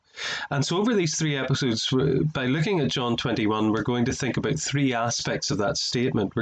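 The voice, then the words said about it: Irish accent. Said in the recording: “I'm an Irishman, as you can tell by my accent”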